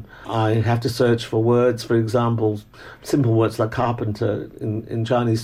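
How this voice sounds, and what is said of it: Educated Hong Kong English accent. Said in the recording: “it's a very Hong Kong type of accent. Mm. So-called the educated Hong Kong English accent.”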